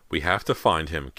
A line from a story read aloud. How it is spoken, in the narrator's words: Callie insisted in a trembling voice